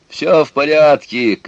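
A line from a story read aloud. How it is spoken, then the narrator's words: Shouted. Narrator (Russian): крикнул Петя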